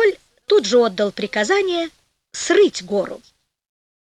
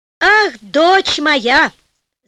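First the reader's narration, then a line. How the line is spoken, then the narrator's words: Joyful shout from a king. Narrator (Russian): закричал обрадованный король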